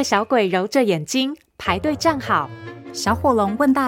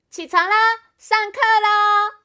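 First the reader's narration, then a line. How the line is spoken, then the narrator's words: Energetic loud shout. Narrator (Chinese): 小火龙元气十足的大喊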